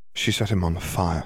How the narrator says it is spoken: Hermione said softly

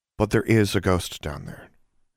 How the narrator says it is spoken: Alexandra said quietly

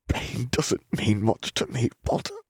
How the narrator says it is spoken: Malfoy gasped through clenched teeth

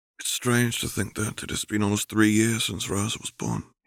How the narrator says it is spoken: he sighed

